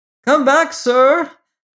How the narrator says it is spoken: cried a fireman

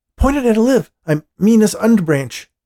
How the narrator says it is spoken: Dean said urgently

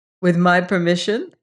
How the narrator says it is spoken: Grace laughed

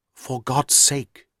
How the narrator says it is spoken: whispered confidentially

